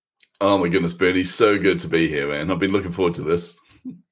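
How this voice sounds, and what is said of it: New Zealand accent, Australian-hybrid. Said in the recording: “you have an Australian accent ... It's actually a Kiwi accent, New Zealand accent, but it's a hybrid”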